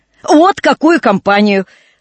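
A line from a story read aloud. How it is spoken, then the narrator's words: Exclaiming with laughter. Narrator (Russian): с веселым хохотом воскликнул месье Жорж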